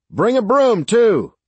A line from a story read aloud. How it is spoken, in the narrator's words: Sarge shouted